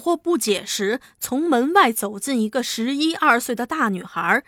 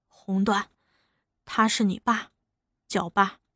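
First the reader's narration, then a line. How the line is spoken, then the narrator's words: Low embarrassed voice. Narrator (Chinese): 预算满面通红，便低声说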